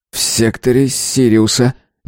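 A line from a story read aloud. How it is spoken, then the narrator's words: Uncertain mumble. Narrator (Russian): неуверенно пробормотал он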